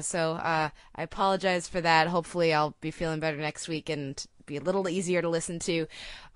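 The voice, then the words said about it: Sick, strained voice. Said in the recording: “apologize for my voice, as I'm sure most everybody can hear. I'm sick.”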